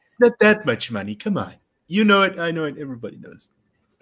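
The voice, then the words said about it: Donald Trump impression. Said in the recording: “you have to do it again in a Trump voice.”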